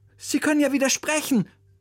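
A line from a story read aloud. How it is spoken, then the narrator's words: Calling out. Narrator (German): rief zu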